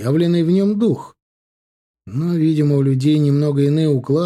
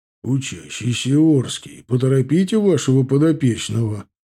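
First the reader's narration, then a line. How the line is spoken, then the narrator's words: Calm soft booming bass. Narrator (Russian): прогудел спокойный даже мягкий бас Кштовского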